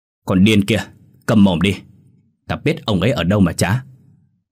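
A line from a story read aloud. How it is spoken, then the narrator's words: Roared. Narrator (Vietnamese): hắn gầm lên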